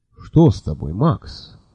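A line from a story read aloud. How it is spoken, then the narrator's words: Calm question. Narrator (Russian): спокойно спросил Лонли Локли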